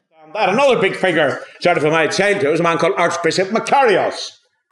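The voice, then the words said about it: Strong Irish accent. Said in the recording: “He's got a pretty strong Irish accent”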